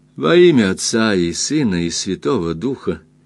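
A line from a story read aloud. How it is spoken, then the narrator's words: Clear voice. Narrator (Russian): произнесла она ясным голосом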